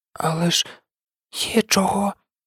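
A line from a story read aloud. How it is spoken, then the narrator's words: Whisper. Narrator (Ukrainian): прошепотів Невіл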